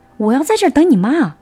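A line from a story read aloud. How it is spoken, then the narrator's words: Loud speech. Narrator (Chinese): 他大声的说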